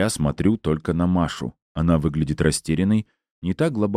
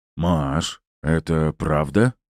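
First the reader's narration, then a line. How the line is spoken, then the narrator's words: Very hoarse rasp. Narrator (Russian): Я все еще хриплю, как верблюд в пустыне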